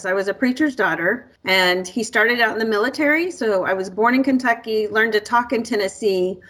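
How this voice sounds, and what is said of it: Slight Southern-sounding American accent. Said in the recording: “some people think I have a little bit of an accent. They'll say, are you from the South? ... my unique accent”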